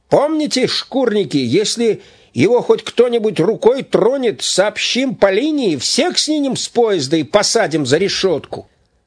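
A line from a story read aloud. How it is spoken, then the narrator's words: Shouting, several voices. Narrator (Russian): Чекисты кричали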